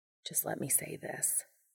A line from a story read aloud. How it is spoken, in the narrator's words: Castiel said quietly